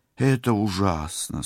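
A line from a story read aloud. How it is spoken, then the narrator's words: Mournful sigh. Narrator (Russian): скорбно вздохнула сестра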